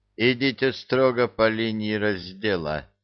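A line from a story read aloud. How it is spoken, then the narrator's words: Weary demand. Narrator (Russian): устало потребовал ангел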